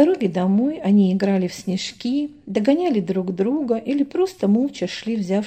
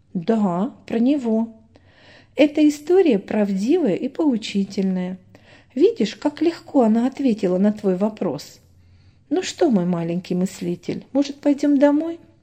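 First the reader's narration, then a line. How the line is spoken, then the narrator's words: Mother asking cheerfully. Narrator (Russian): весело спросила мама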